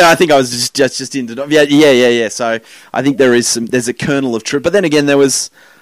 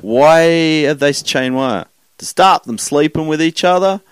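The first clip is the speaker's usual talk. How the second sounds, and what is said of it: Put-on American Southern accent. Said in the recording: “I did the American Southern accent there”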